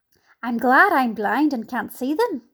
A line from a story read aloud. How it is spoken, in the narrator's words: the earthworm said